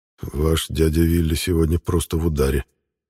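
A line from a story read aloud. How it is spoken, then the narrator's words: Hushed whisper, in Russian. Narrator (Russian): вполголоса шепнул по-русски канцлер Одинцов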